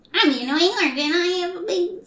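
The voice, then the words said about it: Squeaky cartoon character voice. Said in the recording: “How does the annoying orange sound again? ... he's got like an auto-tune voice ... squeaky voice”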